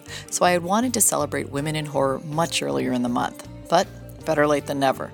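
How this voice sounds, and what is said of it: Hoarse, strained voice from cold. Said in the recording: “I've been battling a cold and losing my voice”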